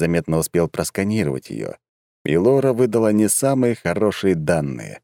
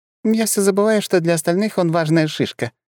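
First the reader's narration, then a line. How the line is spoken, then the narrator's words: Giggled. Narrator (Russian): хихикнула Света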